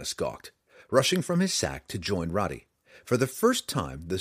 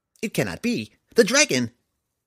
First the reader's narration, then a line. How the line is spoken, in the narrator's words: Before he even realized what he was saying, Tifanus blurted